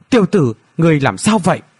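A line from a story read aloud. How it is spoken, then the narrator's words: Concerned cry. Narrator (Vietnamese): Từ Kim Thần Long rõ ràng phát giác hắn có điều gì không ổn, không nhịn được la lên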